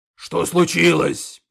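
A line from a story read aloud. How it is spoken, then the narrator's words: Orc roaring. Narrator (Russian): проревел орк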